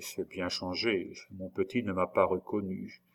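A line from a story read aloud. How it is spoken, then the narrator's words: Spoken very quietly. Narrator (French): prononça tout bas André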